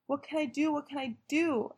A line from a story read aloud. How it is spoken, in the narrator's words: I cried louder and louder